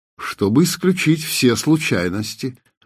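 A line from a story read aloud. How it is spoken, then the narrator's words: Calm. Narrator (Russian): спокойно ответил Селим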